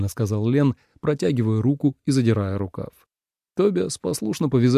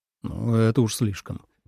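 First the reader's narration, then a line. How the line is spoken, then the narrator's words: Grumbling with a smile. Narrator (Russian): пробурчал, однако улыбнулся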